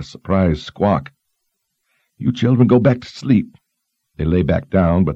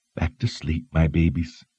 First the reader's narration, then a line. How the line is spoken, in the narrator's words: she said in a soothing voice